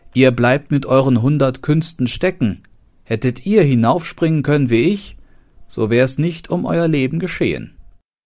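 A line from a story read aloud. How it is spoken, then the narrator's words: Cat calling out. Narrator (German): rief die Katze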